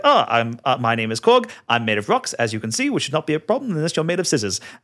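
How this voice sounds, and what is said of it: Polite New Zealand accent. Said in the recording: “Taika Waititi doing, like, you know, a polite New Zealand accent, which he has said he based on, like, bouncers from in clubs in New Zealand”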